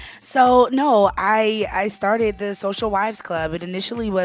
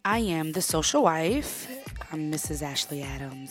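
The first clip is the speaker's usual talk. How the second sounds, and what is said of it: Put-on sexy voice. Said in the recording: “That's my sexy voice,”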